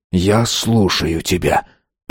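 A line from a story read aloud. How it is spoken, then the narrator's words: Whisper. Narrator (Russian): прошептал Байрон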